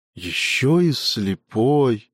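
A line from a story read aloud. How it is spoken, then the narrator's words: Sigh. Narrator (Russian): вздохнул амфитрион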